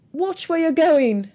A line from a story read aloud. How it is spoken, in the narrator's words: shouted the driver